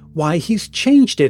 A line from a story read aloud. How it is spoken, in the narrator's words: exclaimed a chorus